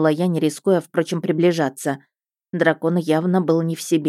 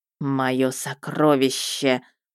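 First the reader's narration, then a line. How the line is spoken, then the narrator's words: Hissing. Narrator (Russian): прошипел он Розе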